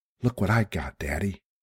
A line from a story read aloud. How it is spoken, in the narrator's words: he said breathlessly